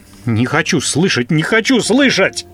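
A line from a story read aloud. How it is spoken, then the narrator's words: Wailing. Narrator (Russian): Вопил он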